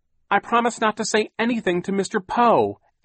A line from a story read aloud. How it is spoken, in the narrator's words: Aunt Josephine said desperately